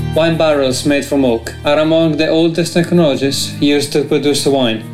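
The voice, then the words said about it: Foreign accent, slightly broken English. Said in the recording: “the dude's accent and slightly broken English actually adds to the authenticity”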